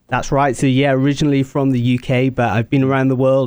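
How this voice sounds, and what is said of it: British accent. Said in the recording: “he's got a great accent”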